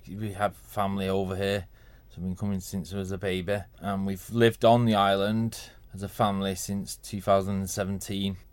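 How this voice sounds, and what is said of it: Manchester English accent. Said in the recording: “People might detect from the accent you're not from the Isle of Man ... Originally from Manchester”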